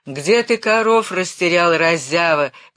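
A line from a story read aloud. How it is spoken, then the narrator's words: Exhausted shout. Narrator (Russian): кричал измученным голосом начальник гурта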